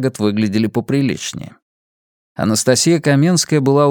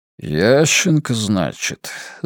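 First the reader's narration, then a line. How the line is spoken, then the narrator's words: Thoughtful drawl. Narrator (Russian): задумчиво протянул Большаков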